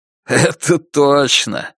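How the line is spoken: Laughing reply. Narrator (Russian): смеясь, отвечает Билли

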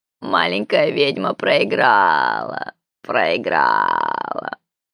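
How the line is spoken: Gloating purr. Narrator (Russian): промурлыкало существо злорадно

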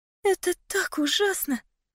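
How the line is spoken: Fearful whisper. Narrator (Russian): прошептала она, как будто боялась произнести фразу вслух

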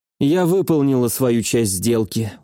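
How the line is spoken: Tired. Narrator (Russian): устало сказала она

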